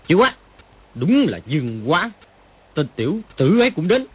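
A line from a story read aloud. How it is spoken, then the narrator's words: Angry exclamation. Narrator (Vietnamese): Triệu Chí Kính sắc diện đại biến, tức giận thốt lên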